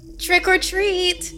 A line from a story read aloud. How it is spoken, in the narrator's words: the Grim Gouger said in a high and enthusiastic voice